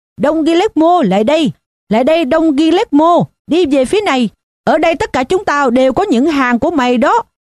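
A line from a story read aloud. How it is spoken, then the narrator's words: Shouting. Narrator (Vietnamese): có một người trong hàng hét lên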